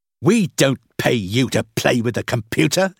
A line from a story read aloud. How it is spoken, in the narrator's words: said Mervyn angrily